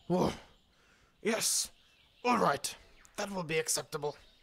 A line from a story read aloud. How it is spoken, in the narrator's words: said Papa Kay in a not so growly voice